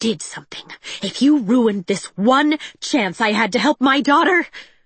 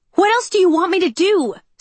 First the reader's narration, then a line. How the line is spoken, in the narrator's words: Cinder yelled back